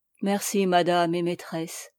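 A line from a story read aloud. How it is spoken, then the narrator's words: Murmuring. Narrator (French): murmura-t-il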